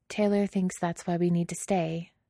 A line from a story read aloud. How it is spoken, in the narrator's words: Carly says softly